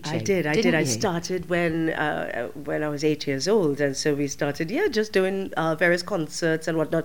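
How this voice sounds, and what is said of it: Trinidadian accent. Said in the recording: “you come from Trinidad... Which we can hear in your wonderful accent”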